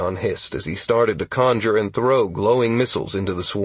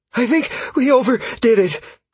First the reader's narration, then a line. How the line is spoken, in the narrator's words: Caius gasped